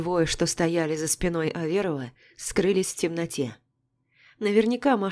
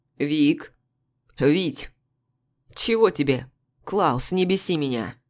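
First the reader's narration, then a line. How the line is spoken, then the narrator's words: Barking. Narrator (Russian): Рявкнул Аверов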